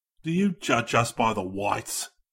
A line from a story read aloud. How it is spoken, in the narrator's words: He cried